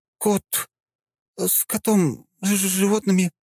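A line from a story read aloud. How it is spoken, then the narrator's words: Mumbling girl. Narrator (Russian): начинает мямлить девица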